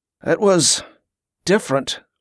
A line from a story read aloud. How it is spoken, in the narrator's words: Wick replied in a low voice, sounding uncomfortable